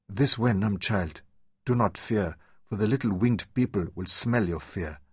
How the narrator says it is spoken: Hani called softly

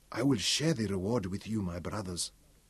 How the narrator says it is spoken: whispered

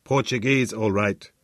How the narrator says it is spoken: grunted

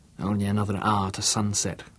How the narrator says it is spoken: he whispered

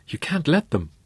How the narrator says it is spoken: the man pleaded with his fellow passengers

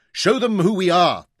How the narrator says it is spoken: cried

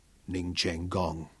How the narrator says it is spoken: Daniel said quietly

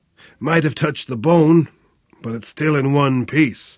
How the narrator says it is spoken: grunted with relief

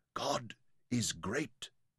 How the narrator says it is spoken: whispered

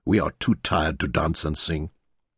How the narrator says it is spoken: Loikot muttered

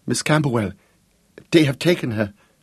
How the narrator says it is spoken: she blurted wildly, and her voice choked up

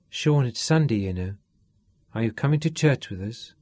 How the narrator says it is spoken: Katrina asked coldly from the bedroom door

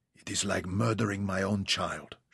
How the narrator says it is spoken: she whispered

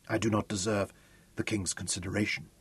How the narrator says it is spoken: choked on the words

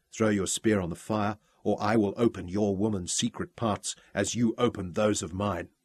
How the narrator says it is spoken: whispered

